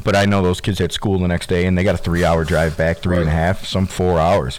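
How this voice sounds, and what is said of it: Tired, worn-out voice. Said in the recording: “tell in my voice still, I'm still catching up on some sleep and some rest”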